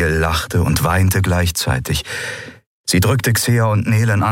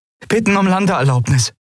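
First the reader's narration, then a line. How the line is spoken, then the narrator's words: Called out. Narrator (German): rief Andriel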